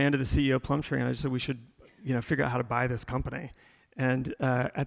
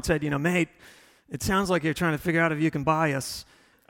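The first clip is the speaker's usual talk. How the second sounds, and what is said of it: Poor imitation Australian accent. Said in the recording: “I do terrible Australian accent. Like, even after 12 years, I can't get it right.”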